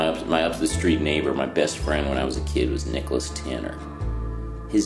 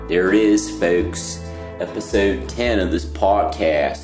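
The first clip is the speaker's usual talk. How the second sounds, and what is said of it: Put-on Cincinnati accent. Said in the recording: “That's my Cincinnati accent.”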